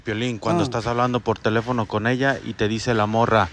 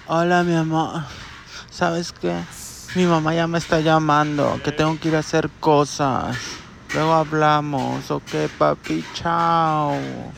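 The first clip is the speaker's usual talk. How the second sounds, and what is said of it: Man imitating a woman's voice. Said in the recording (Spanish): “lo hizo con la voz de mujer el viejón”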